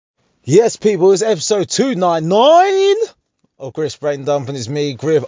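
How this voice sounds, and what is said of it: Radio DJ voice. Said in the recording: “Why am I doing this in the radio voice? ... that's the voice I should have. It's the DJ voice. ... that's how the DJ sounds.”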